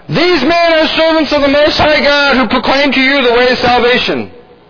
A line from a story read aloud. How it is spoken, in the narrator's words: she cried out